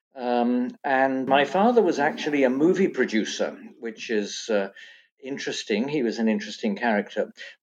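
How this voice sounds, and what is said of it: British accent. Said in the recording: “As you can tell from my accent, I was born and brought up in Britain.”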